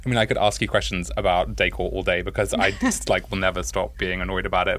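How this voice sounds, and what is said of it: Posh English accent. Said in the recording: “your, like, fat posh accent”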